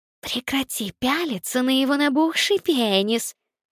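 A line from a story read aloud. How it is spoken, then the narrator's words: Hissing. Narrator (Russian): прошипела Никс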